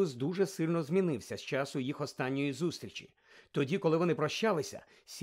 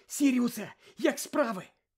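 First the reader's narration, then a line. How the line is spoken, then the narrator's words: Exclaiming. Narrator (Ukrainian): вигукнув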